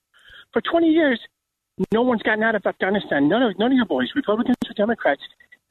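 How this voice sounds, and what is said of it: Irish accent. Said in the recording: “I love the accent.”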